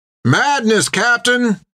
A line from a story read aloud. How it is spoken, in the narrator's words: cried Topper